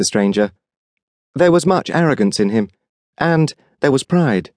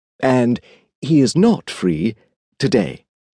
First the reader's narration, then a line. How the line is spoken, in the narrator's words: replied the Edwardian exquisite in his beautifully modulated voice